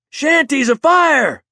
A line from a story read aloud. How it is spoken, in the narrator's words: he yelled